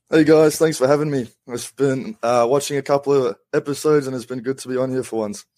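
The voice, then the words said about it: Somewhat Australian, partly South African accent. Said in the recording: “somewhat Australian accent. There's a South African in there somewhere.”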